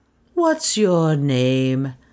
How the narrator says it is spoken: Heloise asked coldly

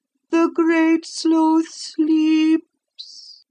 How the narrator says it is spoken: the woman sighed, and remarking

